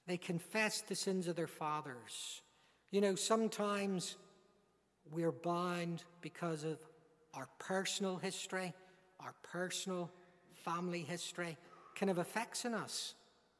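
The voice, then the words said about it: Northern Irish accent. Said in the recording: “by my accent, you recognize I'm not an Englishman. I'm a Northern Irishman”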